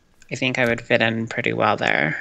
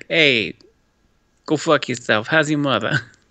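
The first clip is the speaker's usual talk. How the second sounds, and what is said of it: Put-on Boston accent. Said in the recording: “I can't do Boston accents.”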